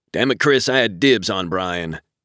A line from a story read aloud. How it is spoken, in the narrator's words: AJ grumbled